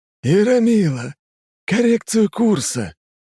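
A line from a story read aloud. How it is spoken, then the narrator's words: Unbearably unctuous tone. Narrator (Russian): каким-то новым, невыносимо елейным тоном говорит Ксенакис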